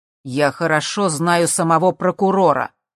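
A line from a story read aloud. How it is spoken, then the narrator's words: Loud. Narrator (Russian): громко сказал Джим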